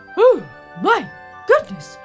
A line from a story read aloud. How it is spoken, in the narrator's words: cried the king